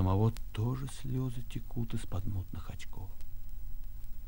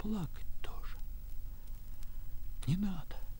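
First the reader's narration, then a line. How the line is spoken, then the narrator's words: Whispered in ear. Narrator (Russian): повторил он шепотом, на ухо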